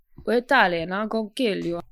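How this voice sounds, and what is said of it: Mock Italian mobster accent. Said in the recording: “Adrien Brody and his terrible Cod ... Italian accent ... Why is he doing that voice? ... He's trying to be like stop. Don Corleone.”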